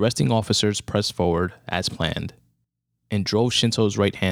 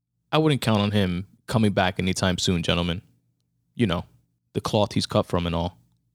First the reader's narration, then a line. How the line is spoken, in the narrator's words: Officer Johnson turned back to the group and sarcastically stated